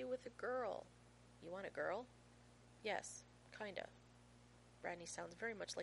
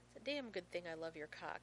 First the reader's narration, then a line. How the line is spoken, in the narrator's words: he says firmly